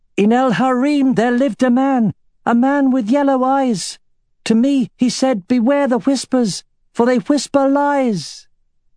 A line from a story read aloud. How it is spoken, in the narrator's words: she shouted